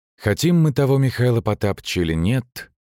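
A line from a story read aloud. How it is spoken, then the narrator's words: Sighing. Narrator (Russian): вздохнул лихо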